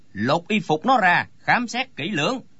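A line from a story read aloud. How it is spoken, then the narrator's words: Frowning bark. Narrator (Vietnamese): chau mày quát lên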